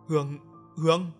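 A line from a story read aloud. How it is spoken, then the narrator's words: Stunned stammering. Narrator (Vietnamese): Hắn như chết đứng, miệng lắp bắp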